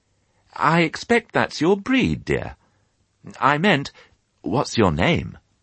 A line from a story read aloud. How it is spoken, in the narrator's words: to the piglet she said kindly